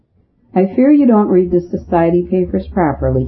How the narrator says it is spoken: said, and began to read out in a monotonous voice

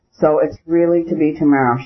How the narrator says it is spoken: she said in a cheerful voice

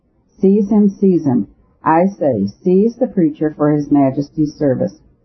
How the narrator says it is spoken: lost all patience and cried out with all his might

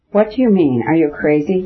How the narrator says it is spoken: Dolly cried in horror

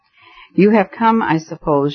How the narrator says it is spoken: said mournfully

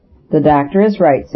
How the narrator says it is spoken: said Ash in his firm tones

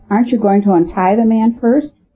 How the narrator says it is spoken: called out Miss McNabb

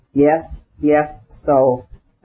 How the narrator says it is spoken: the dying man articulated slowly at intervals

